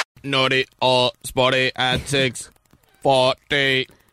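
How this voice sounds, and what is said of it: Robot voice. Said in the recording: “That's my robot voice”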